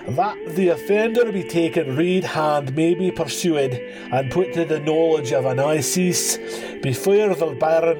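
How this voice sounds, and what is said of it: Put-on Scottish accent. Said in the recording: “I have to think of the Scottish accent. Because I do a lot of accents, and I don't know that I do them all very well at all”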